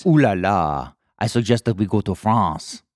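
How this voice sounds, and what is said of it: Terrible put-on French accent. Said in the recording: “That's the terrible French accent ... With my bad impressions.”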